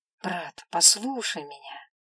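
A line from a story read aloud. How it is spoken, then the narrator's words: Calm tone. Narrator (Russian): спокойным тоном говорил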